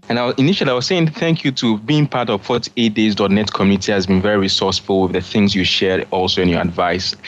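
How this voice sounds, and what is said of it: Ghanaian English accent. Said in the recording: “I just love accents. And this one comes from Bernard Kelvin Clive. And he is from Ghana. I was talking to somebody in Ghana today. Check out this accent. ... Isn't it cool?”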